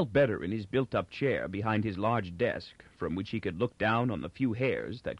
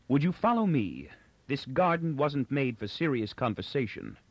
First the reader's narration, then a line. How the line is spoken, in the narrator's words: Inber said coldly